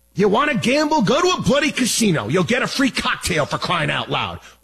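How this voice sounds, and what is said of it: Loud yelling, screaming delivery. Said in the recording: “I'm yelling and screaming here”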